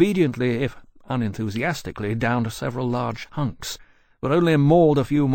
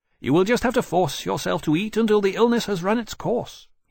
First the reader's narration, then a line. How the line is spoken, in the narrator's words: he added to Temeraire sternly